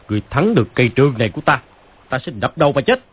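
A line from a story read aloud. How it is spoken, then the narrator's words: Angry. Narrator (Vietnamese): Phàn Nhất Ông tức giận nói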